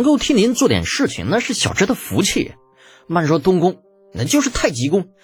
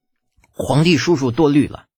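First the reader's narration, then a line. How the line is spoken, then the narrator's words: Through gritted teeth. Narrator (Chinese): 李浩发自肺腑、咬牙切齿的说道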